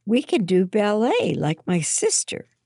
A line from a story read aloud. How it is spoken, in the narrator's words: Hannah exclaimed